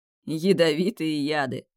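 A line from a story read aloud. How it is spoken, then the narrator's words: Laughing. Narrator (Russian): хохотал Тимеон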